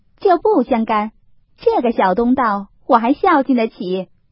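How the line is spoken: Hasty, laughing. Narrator (Chinese): 凤姐也忙笑道

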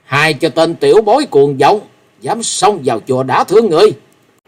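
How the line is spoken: Shout. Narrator (Vietnamese): Tiếng quát

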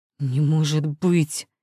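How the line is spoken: Roaring. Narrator (Russian): не шипение, а рык

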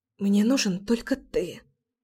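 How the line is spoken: Desperate whisper. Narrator (Russian): В отчаянии прошептала я

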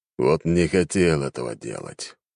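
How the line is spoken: Resigned sigh. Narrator (Russian): обреченно вздохнул император

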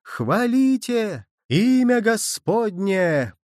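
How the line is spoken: Several voices in chorus. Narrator (Russian): подхватывало несколько голосов

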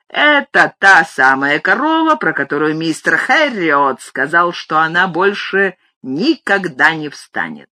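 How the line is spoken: Ringing, triumphant. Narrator (Russian): мистер Хендша всякий раз звонким торжествующим голосом произносил

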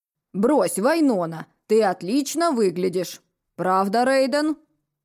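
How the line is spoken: Stern fatherly question. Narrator (Russian): строго спросил папа

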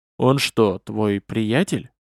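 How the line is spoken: Low-voiced question. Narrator (Russian): вполголоса поинтересовался историк

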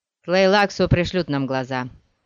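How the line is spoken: Grumbling. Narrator (Russian): проворчал кто-то вблизи Пола

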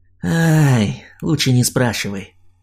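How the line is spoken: Tired exhale. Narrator (Russian): устало выдохнул он

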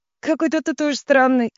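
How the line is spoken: Sudden laugh, young woman. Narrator (Russian): вдруг рассмеялась девушка

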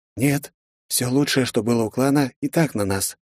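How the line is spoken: Calm. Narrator (Russian): спокойно произнес Джан

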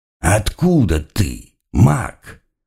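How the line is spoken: Curious inquiry, opponent. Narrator (Russian): поинтересовался мой противник

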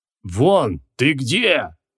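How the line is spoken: Deep bass voice. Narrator (Russian): пробасил Джин

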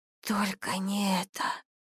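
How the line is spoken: Terrified whisper. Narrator (Russian): шептала, цепенея от ужаса

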